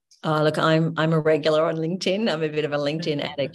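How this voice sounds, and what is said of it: Australian accent. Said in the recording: “listen out for the Aussie accent, and that'll be me.”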